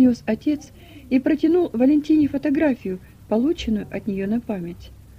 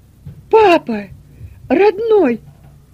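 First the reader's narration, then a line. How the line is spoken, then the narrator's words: Loud tearful exclamation. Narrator (Russian): громко воскликнула она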